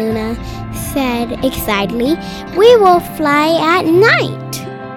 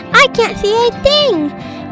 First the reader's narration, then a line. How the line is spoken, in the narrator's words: yelled Peep